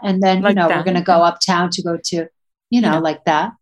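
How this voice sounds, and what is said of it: Imitates their mother's voice. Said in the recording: “can you do an impersonation of mom”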